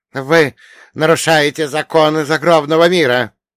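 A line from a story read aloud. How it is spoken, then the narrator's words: Angry reading. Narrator (Russian): продолжал злобно прочитать он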